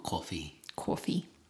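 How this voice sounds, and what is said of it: Put-on New York accent. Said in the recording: “I don't know where that accent came from... That's like New York... kind of like York... It was weird. Staten Island.”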